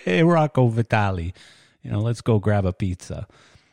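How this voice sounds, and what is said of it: Bad put-on New York accent. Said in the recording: “that was a really bad New York accent”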